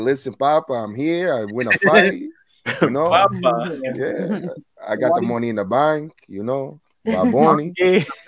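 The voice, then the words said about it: Put-on Hispanic accent impression. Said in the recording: “crazy Hispanic accent out of nowhere”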